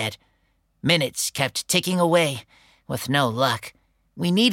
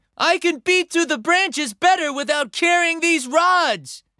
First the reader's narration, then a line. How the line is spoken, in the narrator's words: called out